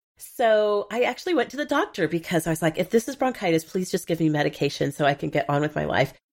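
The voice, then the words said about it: Congested, sick-sounding voice. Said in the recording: “You can hear that I sound terrible. I actually sound worse than I feel. I got a head cold last week”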